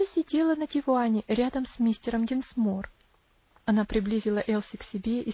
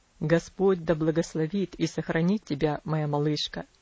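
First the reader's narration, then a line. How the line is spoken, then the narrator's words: Soft, gentle. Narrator (Russian): он мягко сказал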